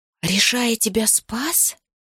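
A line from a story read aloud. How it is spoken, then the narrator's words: Terrified whisper. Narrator (Russian): в ужасе прошептала Тисаана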